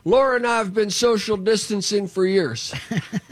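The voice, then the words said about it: George W. Bush impression. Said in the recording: “presidential impersonations. Go ahead, George W.”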